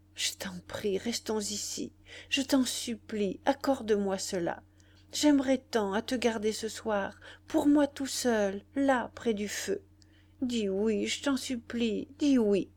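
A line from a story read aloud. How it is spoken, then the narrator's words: Stammering. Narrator (French): Il balbutia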